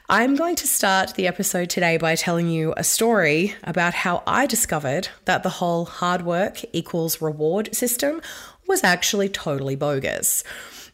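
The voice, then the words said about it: Husky, low voice with a cold. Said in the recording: “Please excuse my voice today. I'm sounding a little bit on the sultry, sexy side because I've had a cold for the last 4 weeks that just will not die.”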